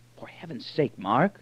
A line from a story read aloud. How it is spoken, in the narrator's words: whispered Moore